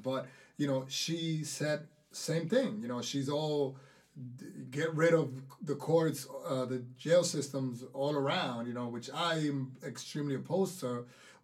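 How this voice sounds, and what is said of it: Thick Dominican accent. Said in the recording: “my thick Dominican accent”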